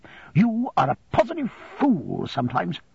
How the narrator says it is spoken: said Miss Murdstone, angrily

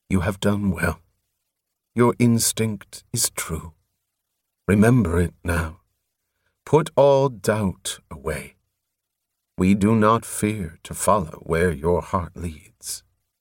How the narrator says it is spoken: he said gently

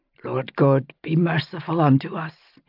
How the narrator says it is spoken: he whispered

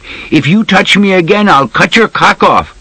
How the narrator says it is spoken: she called after him loudly in Arabic

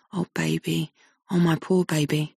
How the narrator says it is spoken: murmurs

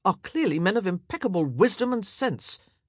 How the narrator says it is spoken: he snapped

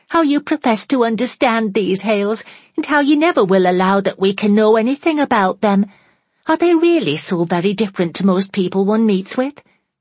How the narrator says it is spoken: said Fanny, laughing in her little weak, nervous way

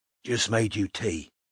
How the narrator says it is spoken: whispered Strike

